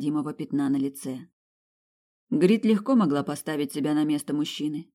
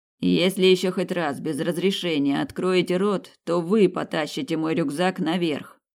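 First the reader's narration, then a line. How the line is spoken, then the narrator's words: Growled threat. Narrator (Russian): прорычал Айхингер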